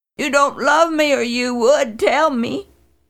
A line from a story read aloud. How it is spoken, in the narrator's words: She wailed